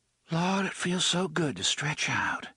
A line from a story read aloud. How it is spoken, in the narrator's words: she sighed